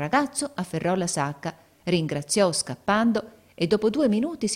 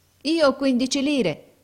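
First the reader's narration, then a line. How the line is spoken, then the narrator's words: Boy answering pleadingly. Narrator (Italian): rispose il ragazzo supplichevole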